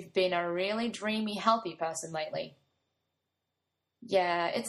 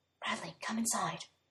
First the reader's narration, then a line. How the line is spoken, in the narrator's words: Colin whispers